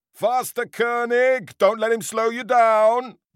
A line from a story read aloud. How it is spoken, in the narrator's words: the gaffer bellowed while wobbling alongside on a rickety bicycle